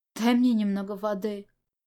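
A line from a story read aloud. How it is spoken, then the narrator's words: Hoarse rasp. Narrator (Russian): Он прохрипел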